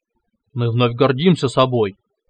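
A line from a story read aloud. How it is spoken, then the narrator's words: Pleased near growl. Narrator (Russian): почти прорычал довольный Тронар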